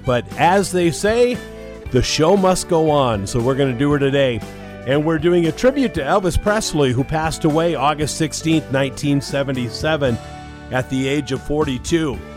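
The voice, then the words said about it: Sick, congested-sounding voice. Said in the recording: “you can tell by my voice, I caught a really bad summer cold this past week.”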